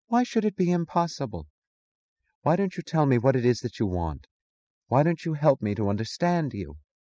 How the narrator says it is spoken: He sighed

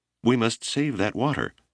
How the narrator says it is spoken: When Whip saw the glorious sight, he became agitated and cried

